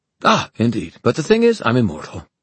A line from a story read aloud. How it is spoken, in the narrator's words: Magnus said cheerfully